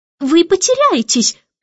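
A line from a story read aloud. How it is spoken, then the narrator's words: Warning exclamation. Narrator (Russian): предостерегающе воскликнула мисс Ларк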